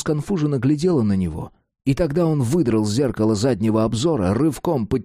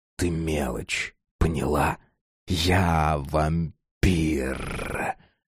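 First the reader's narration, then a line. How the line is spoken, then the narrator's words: Eerie hiss. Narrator (Russian): Жутко прошипел он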